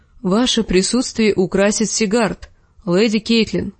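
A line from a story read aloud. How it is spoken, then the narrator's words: Plain. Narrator (Russian): сказал лорд Ясен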